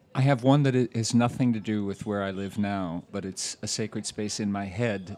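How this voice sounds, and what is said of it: Non-local accent. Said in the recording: “Despite not born here, you can probably tell by the accent.”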